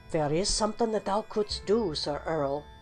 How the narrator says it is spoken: whispered the goblin

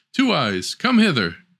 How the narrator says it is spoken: The knight, however, desired to see her and cried

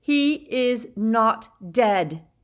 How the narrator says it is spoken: roared Harry

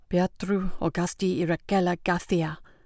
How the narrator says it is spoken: murmured

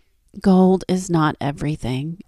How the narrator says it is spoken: answered Midas

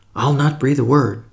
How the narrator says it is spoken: protested Albert eagerly

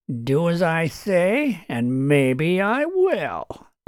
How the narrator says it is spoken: taunted Shively

